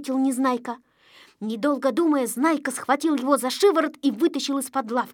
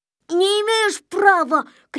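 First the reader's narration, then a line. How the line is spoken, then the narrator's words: Shouting. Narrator (Russian): кричал Незнайка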